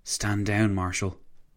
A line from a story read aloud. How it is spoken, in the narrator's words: Massigli said, his voice barely above a whisper